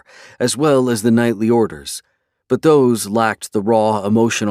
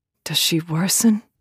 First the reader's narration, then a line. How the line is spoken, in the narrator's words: Callista asked in a hushed voice